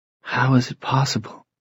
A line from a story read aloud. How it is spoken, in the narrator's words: she whispered